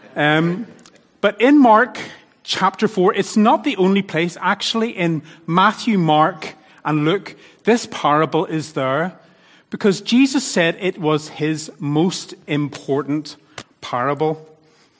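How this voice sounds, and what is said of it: Northern Irish accent. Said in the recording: “my Northern Irish accent.”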